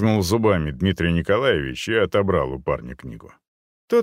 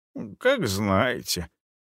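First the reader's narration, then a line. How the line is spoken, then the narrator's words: Embarrassed mumble. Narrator (Russian): промямлил он смущенно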